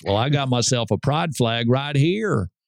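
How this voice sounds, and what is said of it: Put-on Southern US accent. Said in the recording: “the farmer from Iowa, who mysteriously has a southern accent, says”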